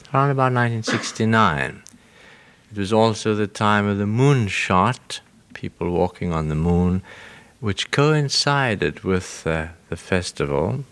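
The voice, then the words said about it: Mild British accent. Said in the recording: “my British accent, which I assure you is not affected. What there is of it is genuine.”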